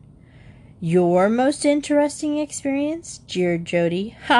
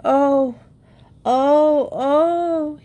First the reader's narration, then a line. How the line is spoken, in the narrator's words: he groaned